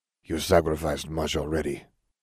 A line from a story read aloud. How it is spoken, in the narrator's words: Salazar murmured